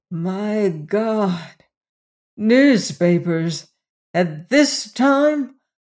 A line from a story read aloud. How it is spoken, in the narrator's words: groaned